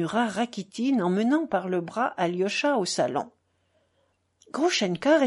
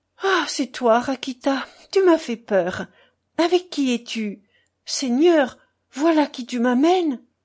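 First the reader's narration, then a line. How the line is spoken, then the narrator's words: Surprised exclamation. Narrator (French): s'écria-t-elle en apercevant Alyosha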